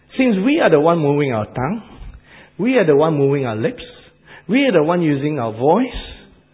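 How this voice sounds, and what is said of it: Asian accent in English. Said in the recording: “I still retain some of my Asian accent. I couldn't help it ... I haven't picked up your New Zealand accent or Australian accent”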